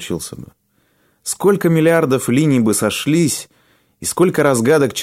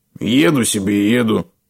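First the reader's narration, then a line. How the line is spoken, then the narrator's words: Cold objection. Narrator (Russian): холодно возразил извозчик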